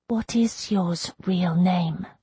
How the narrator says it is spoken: He whispered

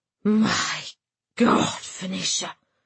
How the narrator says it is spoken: he gasped, flabbergasted

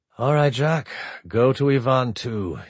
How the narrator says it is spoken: he said flatly

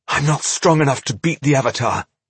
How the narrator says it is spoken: she gasped

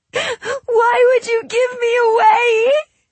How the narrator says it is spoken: She sobbed

